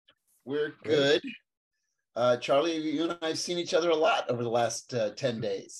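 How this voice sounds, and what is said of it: Froggy, scratchy voice. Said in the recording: “my voice is still uh, a little froggy and scratchy”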